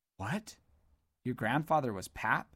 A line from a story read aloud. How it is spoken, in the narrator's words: sputtered Commendus, looking surprised